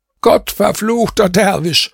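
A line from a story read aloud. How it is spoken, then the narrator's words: Shouted. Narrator (German): schrie ich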